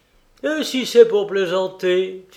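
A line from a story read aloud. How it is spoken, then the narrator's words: Laughing. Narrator (French): fit Kolia en riant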